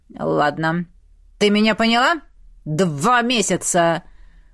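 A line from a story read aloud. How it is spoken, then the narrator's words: Menacing reminder. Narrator (Russian): Грозно напомнил Вернон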